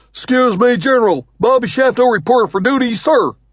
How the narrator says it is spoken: he blurts

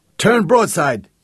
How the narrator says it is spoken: yelled Jake

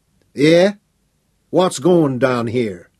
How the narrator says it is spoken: he demanded in a Texan drawl, speaking around the stub of an unlit cigar

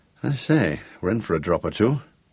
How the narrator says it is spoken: murmured Gareth

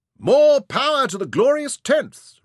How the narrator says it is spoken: Ryder roared

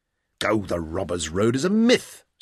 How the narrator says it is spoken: said Tom firmly

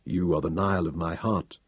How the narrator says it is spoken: Thanos told her quietly

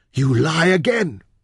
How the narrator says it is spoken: he gasped

